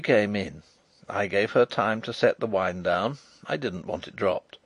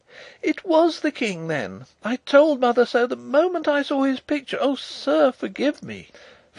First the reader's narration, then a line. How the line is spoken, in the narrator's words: she cried